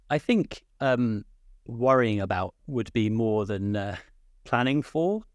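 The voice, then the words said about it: British accent. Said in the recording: “from my accent, I'm from the UK”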